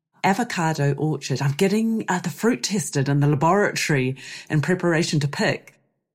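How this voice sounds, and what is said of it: Croaky voice. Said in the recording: “I'm also losing my voice. So I'm a bit croaky. Apologies for that on the sound.”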